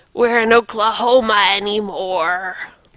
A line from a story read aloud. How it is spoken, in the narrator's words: gasped Wheeze